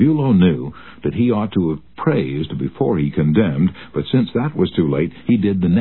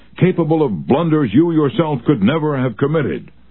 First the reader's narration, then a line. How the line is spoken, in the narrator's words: he shouted